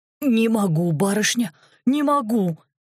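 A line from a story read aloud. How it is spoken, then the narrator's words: Wheezing. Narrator (Russian): хрипел Гера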